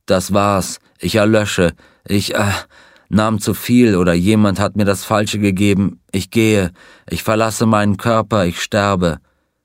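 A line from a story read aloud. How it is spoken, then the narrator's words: Groaning man. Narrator (German): Er stöhnte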